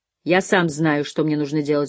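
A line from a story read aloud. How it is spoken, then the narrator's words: Grumbling. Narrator (Russian): буркнул Лоусон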